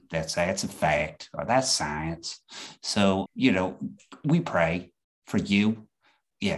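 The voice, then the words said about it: Exaggerated Southern US accent. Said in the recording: “my Southern accent's getting more or less offensive to people in the South ... y'all's accents are more like Georgia, like really rich Georgians”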